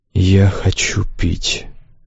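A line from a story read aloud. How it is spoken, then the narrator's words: Faint, weak request. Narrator (Russian): еле слышно попросил зверуин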